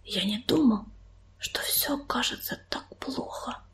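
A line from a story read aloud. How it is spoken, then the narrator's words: Whisper. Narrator (Russian): прошептал он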